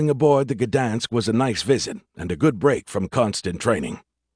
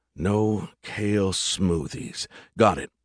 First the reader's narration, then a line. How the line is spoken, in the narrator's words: I muttered